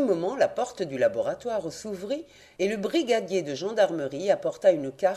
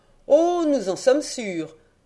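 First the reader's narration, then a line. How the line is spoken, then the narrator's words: Magistrate exclaiming. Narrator (French): s'écria le juge d'instruction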